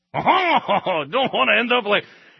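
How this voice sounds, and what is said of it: Put-on French accent. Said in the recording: “one of those French at the end ... that's my French accent, which is why I won't use it ever again”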